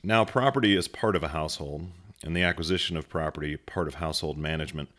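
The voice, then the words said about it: Formal radio-style reading voice. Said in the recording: “Getting that radio voice ready. Just getting in an Aristotle character.”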